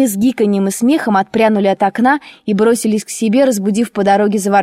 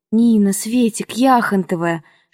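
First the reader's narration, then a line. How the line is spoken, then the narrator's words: Intermittent whispering. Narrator (Russian): шептала по временам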